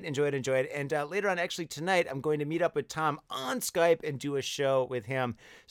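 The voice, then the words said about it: Rough, strained voice. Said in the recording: “hopefully my voice feels a little bit better ... I'm not sick ... my voice is a little bit messed up ... It's the dust. The dust got to me.”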